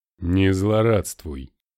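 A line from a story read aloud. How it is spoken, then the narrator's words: Gloomy curt remark. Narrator (Russian): мрачно бросил Бергер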